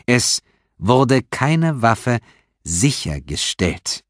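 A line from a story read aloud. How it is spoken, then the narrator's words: Repeated very slowly. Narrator (German): wiederholte Stephanopoulos sehr langsam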